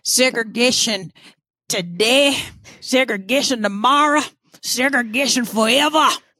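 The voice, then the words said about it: Imitates another person's voice. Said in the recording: “my uh my impersonation of him ... George Wallace.”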